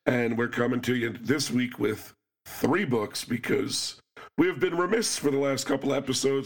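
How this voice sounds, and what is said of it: Strained, breathy, recovering voice. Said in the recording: “As you can hear, my voice is still kind of struggling. ... this is the best it's been in about 2 weeks ... Hopefully this sounds breathy, though”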